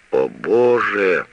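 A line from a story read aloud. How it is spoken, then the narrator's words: Moaning. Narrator (Russian): снова простонал ротмистр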